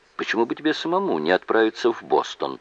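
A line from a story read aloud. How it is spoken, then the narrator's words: Plain. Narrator (Russian): спросил Джейк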